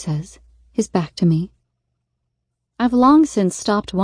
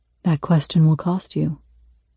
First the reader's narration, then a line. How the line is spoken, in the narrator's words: he says softly